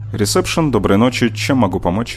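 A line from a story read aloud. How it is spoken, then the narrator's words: Sharp male voice, phone. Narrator (Russian): Мужчина на другом конце говорил резко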